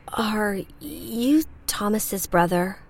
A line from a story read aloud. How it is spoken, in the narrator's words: She stammered